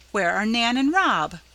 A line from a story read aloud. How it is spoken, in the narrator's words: cried Mrs